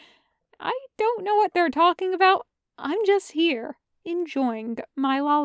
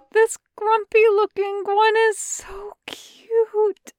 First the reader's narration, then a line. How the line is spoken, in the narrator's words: Chung Chung cries